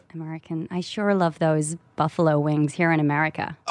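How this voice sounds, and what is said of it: Put-on American LA accent. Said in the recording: “how's your American accent? ... LA accent. ... Oh, you're good ... Yeah, that works.”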